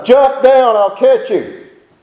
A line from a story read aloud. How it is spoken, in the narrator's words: he hollered to his son